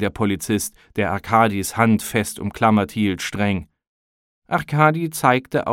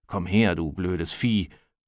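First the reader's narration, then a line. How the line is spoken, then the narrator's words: Muttering in Russian. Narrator (German): murmelte er auf Russisch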